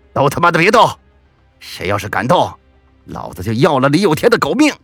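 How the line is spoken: Fierce roar. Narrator (Chinese): 李虎凶神恶煞的冲着蠢蠢欲动的李有天的小弟们吼道

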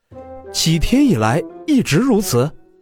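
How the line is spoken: Astonished voice. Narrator (Chinese): 华清又是一愣，声音充满了惊诧

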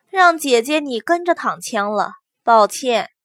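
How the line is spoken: Quiet sigh. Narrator (Chinese): 祸水 暗中叹息

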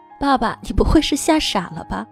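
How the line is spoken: Laughing. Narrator (Chinese): 我哈哈的笑

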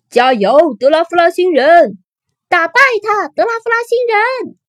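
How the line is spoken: Crowd cheering. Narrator (Chinese): 大家开始一个接一个的喊起来

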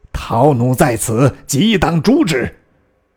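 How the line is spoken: Furious. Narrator (Chinese): 成大怒曰

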